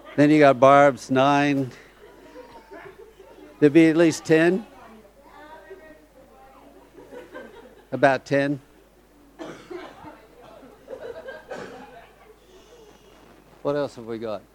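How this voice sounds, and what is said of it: American accent. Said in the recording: “you can tell from my accent where I'm from ... we're all Yanks”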